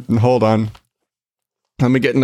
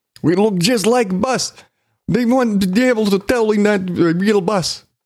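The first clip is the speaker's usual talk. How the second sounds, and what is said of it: Bad put-on Russian accent. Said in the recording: “an offensive Russian accent ... God, that was bad. My apologies for that really, really bad everything.”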